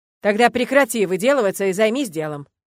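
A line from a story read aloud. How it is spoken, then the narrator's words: Barking. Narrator (Russian): рявкнул декан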